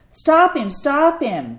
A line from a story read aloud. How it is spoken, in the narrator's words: the ancient ticket taker shouted